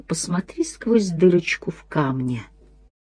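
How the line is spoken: Whisper in the ear. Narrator (Russian): кто-то прошептал на ухо

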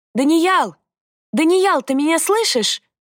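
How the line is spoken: Loud shout. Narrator (Russian): набрала побольше воздуха и крикнула

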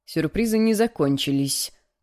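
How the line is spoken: Gloomy reply. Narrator (Russian): мрачно отозвался он спустя несколько минут

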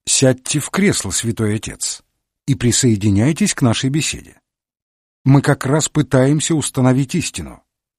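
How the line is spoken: Calm, dignified reply. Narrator (Russian): с достоинством ответил, спокойно сказал

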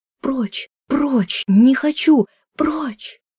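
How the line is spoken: Choked, breaking, terrified scream. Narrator (Russian): голосом ночных кошмаров, срывным и придушенным, закричала

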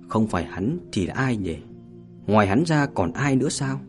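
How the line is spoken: Whispering to self. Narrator (Vietnamese): Hàn Tiểu Tranh thì thầm tự nhủ rằng

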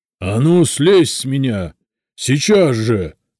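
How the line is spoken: Spirit roaring. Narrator (Russian): взревел дух

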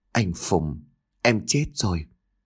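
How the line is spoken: Soft, tearful reply. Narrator (Vietnamese): Nước mắt của cô lăn dài trên gò má, khẽ trả lời

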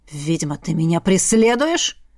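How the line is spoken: Growl. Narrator (Russian): Рыкнул парень

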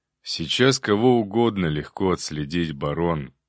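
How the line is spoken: Sighing. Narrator (Russian): вздохнул Илья

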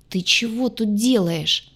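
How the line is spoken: Groaned. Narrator (Russian): простонал спаситель

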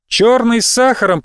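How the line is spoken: Shouted after someone. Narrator (Russian): прокричала я ему вслед

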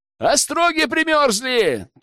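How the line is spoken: Sudden shout. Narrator (Russian): тут же выкрикнул кто-то

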